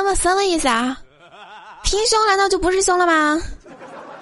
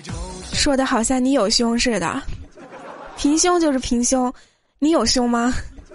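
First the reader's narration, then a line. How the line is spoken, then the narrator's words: Sighing, flat and indifferent. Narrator (Chinese): 多多叹了一口气，淡淡的说了一句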